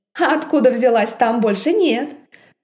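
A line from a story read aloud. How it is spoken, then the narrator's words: Ringing laughter. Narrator (Russian): Я заливисто рассмеялась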